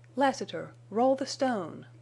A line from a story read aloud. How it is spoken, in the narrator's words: she cried